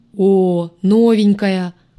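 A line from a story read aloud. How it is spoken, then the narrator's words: Booming right in the ear. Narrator (Russian): прогудели мне прямо в ухо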